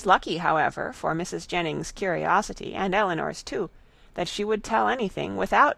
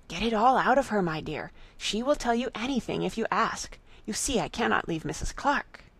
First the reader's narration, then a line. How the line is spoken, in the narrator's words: Jennings immediately whispered to Eleanor